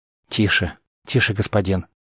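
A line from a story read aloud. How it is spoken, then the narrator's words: Frightened whisper. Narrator (Russian): испуганно прошептал Кассис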